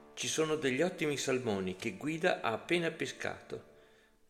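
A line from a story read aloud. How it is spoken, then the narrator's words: Plain. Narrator (Italian): disse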